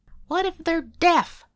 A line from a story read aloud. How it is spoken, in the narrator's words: someone called out